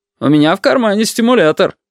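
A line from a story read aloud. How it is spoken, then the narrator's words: Loud, cheerful. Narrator (Russian): громко, даже весело сказал отец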